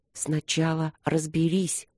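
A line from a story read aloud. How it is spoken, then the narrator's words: Whispered to herself. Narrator (Russian): сказала я себе шепотом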